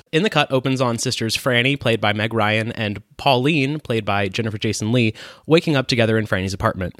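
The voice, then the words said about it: Reading very fast. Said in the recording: “it'll be quick in that I'll read it fast”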